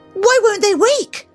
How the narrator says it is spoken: Daphne cried

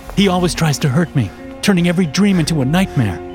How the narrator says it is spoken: I said, panting

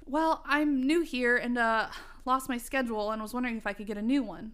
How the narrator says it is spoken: I said to her anxiously

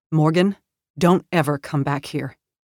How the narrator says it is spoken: My voice was stern, mean even, when I replied

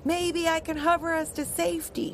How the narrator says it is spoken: he shouted back

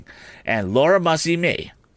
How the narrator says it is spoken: cried my sister, in sudden desperation

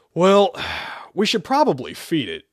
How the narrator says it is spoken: Joe sighed

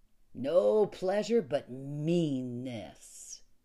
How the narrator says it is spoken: he said, and his voice had become almost a snarl

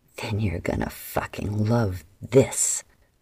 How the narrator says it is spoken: Adara growled

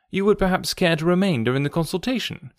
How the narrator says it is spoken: said I

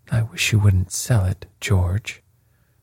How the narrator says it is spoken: she said, in a low voice

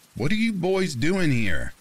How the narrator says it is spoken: her tone was accusatory

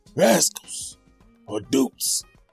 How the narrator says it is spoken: cried

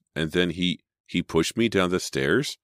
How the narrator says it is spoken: Emma continued in a shaky voice

